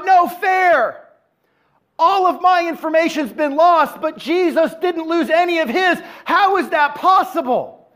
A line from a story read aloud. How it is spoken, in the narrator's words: the atheist cried out